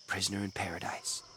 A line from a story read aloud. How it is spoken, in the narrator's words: she muttered